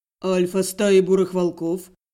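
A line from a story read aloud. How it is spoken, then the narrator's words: Unusually cold male voice. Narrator (Russian): непривычно холодным тоном начал отвечать мужчина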